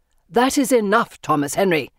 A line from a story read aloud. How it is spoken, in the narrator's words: Father barks